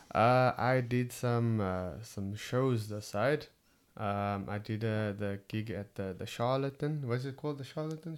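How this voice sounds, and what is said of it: Cape Town South African accent. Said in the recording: “It's my Cape Town accent.”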